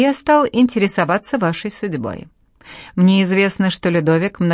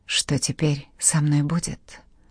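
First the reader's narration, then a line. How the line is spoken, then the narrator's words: Muttered. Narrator (Russian): пробормотала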